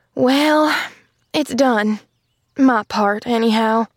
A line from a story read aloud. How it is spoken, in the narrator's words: she sighed